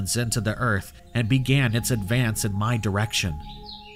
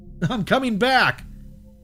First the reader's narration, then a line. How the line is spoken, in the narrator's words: it yelled out in my voice